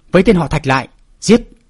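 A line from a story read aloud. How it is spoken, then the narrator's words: Angry ringing shout. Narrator (Vietnamese): nổi giận hét vang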